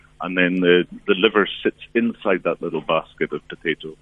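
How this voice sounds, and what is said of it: Scottish accent. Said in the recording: “that great accent, which I'm assuming is all the way from Scotland... It is, you're right there.”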